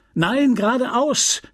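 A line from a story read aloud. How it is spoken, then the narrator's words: Called out. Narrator (German): rief dieselbe Stimme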